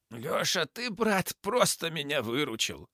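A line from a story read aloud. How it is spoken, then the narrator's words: Hoarse rasp. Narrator (Russian): захрипел Борис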